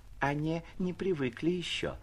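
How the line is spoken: Timid, sweet voice. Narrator (Russian): произнесла робким и умильным голосом одна из приживалок

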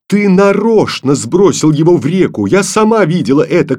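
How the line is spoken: Angry shout. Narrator (Russian): крикнула Таня сердито

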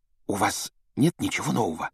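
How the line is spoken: Hushed whisper. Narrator (Russian): добавила она шепотом, чтобы не услышала мадам Помфри

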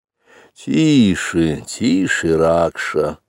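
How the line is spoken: Lazy wolf father. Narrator (Russian): лениво заметил отец-волк

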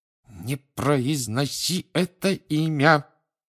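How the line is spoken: Hissed through teeth. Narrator (Russian): прошипел Рон сквозь зубы

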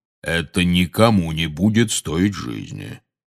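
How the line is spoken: Soothing deep bass. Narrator (Russian): успокаивающе пробасил Кингсли Бруствер

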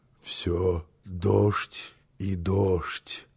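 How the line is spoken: Drowsy half-conscious mutter. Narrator (Russian): пробормотал он еще в полузабытии

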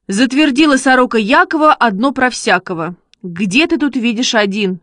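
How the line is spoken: Shouting. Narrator (Russian): закричал Шишкин

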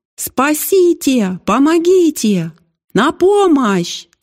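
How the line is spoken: Screaming together. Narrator (Russian): закричали Аня и Алекс

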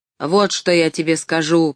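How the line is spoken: Grumbling mutter. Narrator (Russian): пробурчал он

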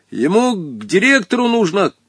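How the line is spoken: Shouted from above. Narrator (Russian): крикнул сверху Волька

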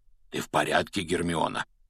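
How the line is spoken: Whisper. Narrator (Russian): прошептал Хагрид

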